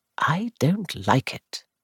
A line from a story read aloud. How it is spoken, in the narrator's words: I said quietly